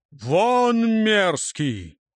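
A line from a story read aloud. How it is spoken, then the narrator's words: Thunderous roar. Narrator (Russian): громче молота Тора прогремел его голос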